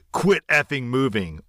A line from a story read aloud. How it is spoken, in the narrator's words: He usually snaps at me saying